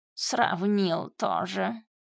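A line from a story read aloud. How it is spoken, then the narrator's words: Scoffing grunt. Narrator (Russian): хмыкнул кот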